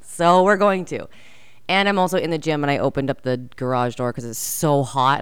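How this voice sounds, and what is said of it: Raspy, tired voice. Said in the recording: “testing my voice. It's so raspy. I'm just tired. ... my voice is like so tired”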